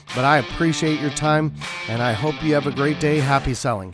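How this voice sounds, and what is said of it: Rough, off-sounding voice. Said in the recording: “I apologize for my voice. It's a little bit, let's just say there's a lot of allergies here and it's kind of messing with me a little bit”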